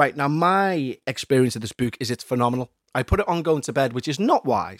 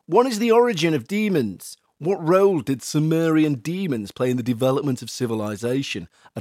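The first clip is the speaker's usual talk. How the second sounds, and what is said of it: Put-on accent. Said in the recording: “I don't know why I'm doing this accent.”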